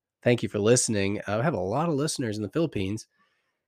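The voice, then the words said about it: American accent. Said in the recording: “With my American accent”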